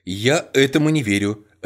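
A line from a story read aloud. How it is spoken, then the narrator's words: Sharp declaration. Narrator (Russian): резко заявила Анжела Уоррен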